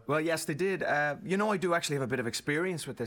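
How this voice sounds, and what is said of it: Irish accent. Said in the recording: “I think he's speaking Australian or something. ... Actually, I'm from Ireland originally.”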